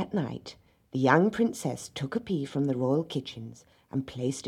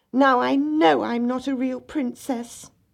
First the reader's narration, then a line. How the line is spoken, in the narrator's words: the little princess cried